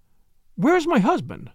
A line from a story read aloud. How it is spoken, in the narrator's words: she cried